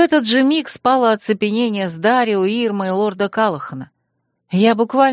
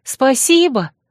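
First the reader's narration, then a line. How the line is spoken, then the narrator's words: Shouting into emptiness. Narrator (Russian): крикнула я в пустоту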